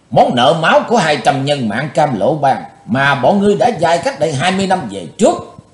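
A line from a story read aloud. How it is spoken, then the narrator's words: Hissed through clenched teeth. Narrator (Vietnamese): Chí Tôn rít qua, hai hàm răng cắn chặt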